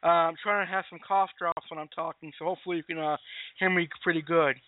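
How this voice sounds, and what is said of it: Raspy, hoarse voice. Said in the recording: “Excuse my voice tonight, by the way. It might sound a little bit raspy.”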